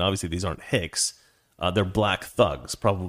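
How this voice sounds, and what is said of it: Usual voice. Nothing is said of it.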